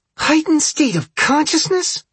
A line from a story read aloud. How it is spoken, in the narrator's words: Aaron hisses